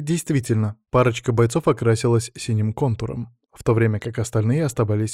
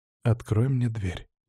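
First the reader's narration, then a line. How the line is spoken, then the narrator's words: Quiet. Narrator (Russian): негромко произнес я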